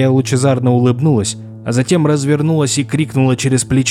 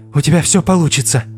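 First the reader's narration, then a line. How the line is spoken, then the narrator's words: Breathed out. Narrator (Russian): выдохнула Флориан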